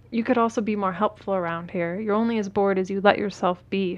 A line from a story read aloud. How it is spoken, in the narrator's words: says